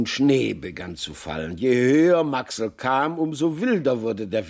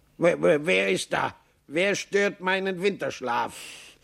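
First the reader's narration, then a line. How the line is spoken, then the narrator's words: Grumpy call. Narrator (German): eine Stimme, die Maxl zu kennen meinte, rief brummig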